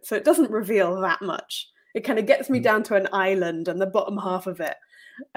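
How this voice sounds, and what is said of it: Generic Southern British English accent. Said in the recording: “we can kind of guess it from your accent ... my accent is that very generic Southern British middle class educated accent”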